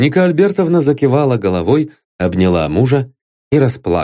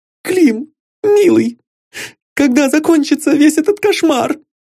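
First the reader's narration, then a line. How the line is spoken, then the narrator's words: Sobbing like a child. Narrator (Russian): Всхлипывая, как ребенок, проговорила она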